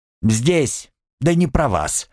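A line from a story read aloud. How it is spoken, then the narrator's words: Rude snap. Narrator (Russian): огрызнулась она так грубо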